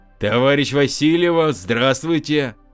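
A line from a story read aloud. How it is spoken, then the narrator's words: Loud bark. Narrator (Russian): гаркнул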